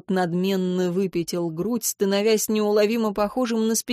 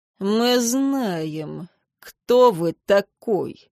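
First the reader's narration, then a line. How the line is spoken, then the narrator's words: Icy hiss behind, raven. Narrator (Russian): процедил за моей спиной ворон, от его ледяного тона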